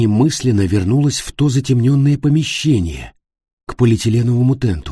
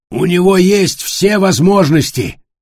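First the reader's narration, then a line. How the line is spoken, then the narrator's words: Shouting after someone. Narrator (Russian): прокричал ему вслед Матиас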